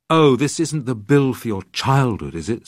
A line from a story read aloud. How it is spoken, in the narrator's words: said Mother, crossly